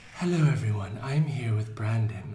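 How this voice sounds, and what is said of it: Mock public radio announcer voice. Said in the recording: “I wanted to try that voice. It didn't work. ... Trying to do like NPR.”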